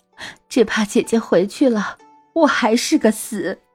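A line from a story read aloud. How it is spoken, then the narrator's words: Crying. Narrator (Chinese): 沈氏哭着说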